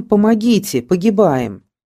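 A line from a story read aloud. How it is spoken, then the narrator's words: Crowd shouting for help. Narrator (Russian): кричали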